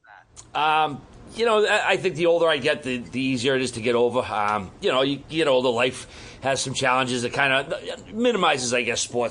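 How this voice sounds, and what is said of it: Boston accent. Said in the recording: “I love the accent. I just have to say, man, the Boston accent.”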